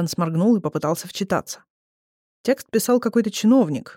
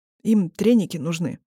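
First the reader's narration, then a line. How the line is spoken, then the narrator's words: Forced out, strained. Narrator (Russian): выдавил Индан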